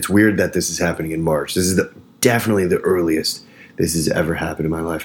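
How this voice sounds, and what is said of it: Lower voice, allergy-affected. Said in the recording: “allergy program is going on. So my voice is a little lower”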